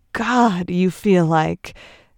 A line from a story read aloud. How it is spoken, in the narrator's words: Trent gasps